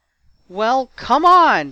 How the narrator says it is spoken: shouted George

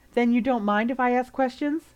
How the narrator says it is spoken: Colin sighed, smiling at her

